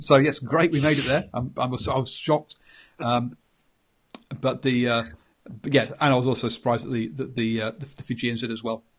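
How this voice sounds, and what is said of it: English accent. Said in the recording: “If you can't tell by my accent, yes, I'm English.”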